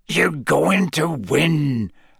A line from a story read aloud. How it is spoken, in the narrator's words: Hagrid growled